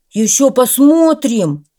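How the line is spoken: Annoyed dog's shout. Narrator (Russian): крикнул ему вслед раздосадованный пес

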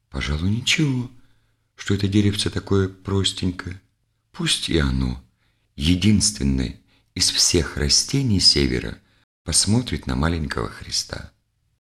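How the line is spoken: Thoughtful whisper. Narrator (Russian): Задумался и прошептал

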